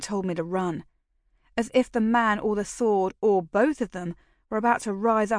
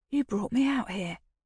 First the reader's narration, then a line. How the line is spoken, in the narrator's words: whispered